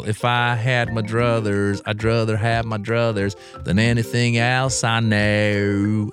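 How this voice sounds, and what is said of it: Exaggerated southern drawl. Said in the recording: “you would sing with a southern drawl ... that was an exaggerated accent”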